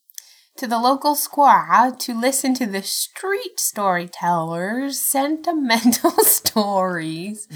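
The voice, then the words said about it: Inconsistent put-on accent. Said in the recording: “This accent changes every time you do it.”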